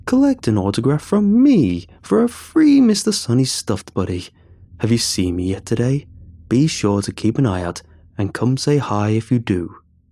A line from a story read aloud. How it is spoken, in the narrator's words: chuckles